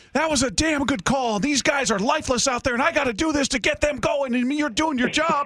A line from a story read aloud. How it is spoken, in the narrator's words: he's just red in the face, and he's screaming